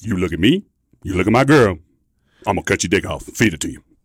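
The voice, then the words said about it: Deep put-on character voice. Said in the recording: “That's a deep voice. That is a deep voice. ... terrible accent.”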